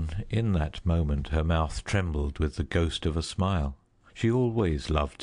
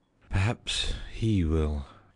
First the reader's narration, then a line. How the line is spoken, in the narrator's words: she said bitterly